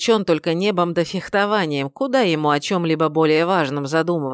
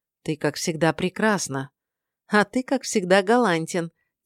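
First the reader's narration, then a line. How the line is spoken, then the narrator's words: Soft laugh. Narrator (Russian): тихо рассмеялась она в ответ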